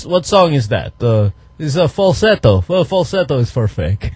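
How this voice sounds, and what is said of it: Put-on Eastern European accent. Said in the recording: “Your dad has like that accent? ... it's totally Eastern European. ... it's almost Transylvanian.”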